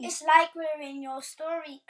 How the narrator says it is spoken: cried Peppa

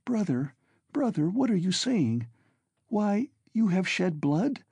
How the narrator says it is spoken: cried Dounia in despair

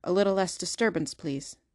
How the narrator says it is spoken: Corse said sternly

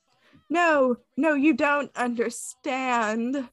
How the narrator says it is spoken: Draco pleaded

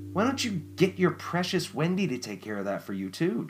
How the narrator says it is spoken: Jennifer spat

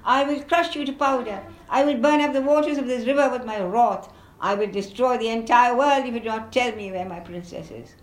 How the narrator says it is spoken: wild with anger shouted

